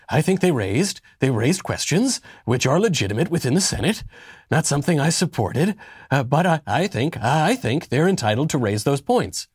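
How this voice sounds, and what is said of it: Imitates another person's voice, poorly. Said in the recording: “I don't do a very good Mitt Romney ... it's a very bad Mitt Romney impression. It's sort, if you want to do a Mitt Romney, it's sort of like you have to do a Reagan, but then make it lamer.”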